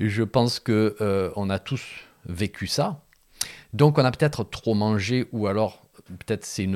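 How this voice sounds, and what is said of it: Usual voice. Nothing is said of it.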